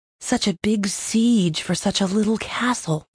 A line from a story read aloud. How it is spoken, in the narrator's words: Thayet murmured